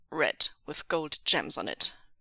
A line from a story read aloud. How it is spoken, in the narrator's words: Ming Zhue said firmly